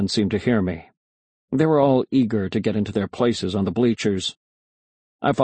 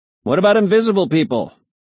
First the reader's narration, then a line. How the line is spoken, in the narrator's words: I shouted